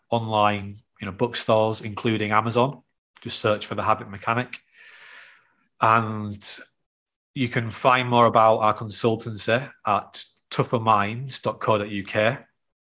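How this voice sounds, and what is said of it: Northern English accent. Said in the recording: “my North of England accent”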